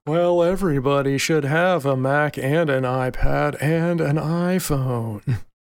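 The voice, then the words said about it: Bad impression, sounds like Eeyore. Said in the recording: “Is that Eeyore or is that Tim Cook? ... a really bad Tim Cook impression ... It was a pretty good Eeyore, though.”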